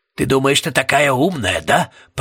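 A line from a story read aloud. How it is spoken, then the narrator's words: Growled. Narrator (Russian): прорычал мистер Пуст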